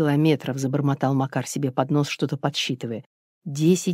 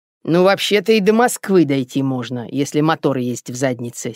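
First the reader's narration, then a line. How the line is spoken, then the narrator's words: Angry grumble. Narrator (Russian): сердито пробурчал Иван Демидович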